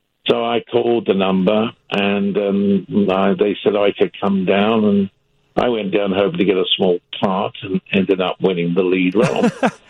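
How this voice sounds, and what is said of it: British accent. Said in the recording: “I've got a British accent ... I did have a British accent. I've had it for a long time.”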